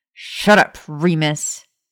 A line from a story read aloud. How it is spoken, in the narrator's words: Maya snapped